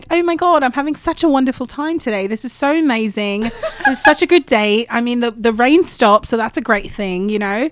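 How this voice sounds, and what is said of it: Put-on British accent. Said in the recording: “He starts talking in the British accent, and then I start doing ... That's really good. To my untrained ear.”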